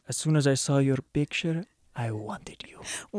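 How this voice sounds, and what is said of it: Put-on Spanish-style romantic accent. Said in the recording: “What is that accent? It's amazing. ... you sound like Mandy Patinkin in The Princess Bride. ... Inigo Montoya.”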